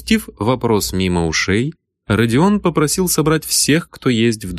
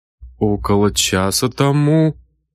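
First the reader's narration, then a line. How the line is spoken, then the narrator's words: Hesitant reply. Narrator (Russian): неуверенно ответил Бородин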